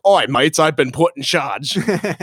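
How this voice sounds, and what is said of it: Mediocre put-on Australian accent. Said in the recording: “That's my Captain Boomerang voice. ... It's not bad. ... It's not good. ... Australian accent's tough to get.”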